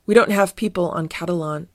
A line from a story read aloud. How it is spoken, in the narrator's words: said Fieldgar